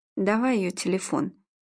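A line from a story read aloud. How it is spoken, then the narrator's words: Tired. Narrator (Russian): устало сказал Игорь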